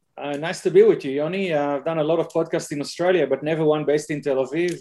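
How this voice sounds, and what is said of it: Strong Israeli accent. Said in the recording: “I'm the one with the strong Israeli one.”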